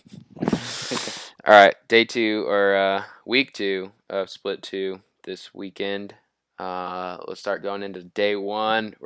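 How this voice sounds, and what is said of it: Sick-sounding voice. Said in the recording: “You sound sick.”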